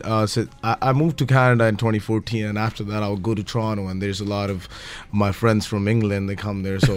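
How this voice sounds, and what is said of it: Mixed accent with British tinge. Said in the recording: “is there a British accent there? I'm trying to work out where the accent comes from ... It's a mixed of everything”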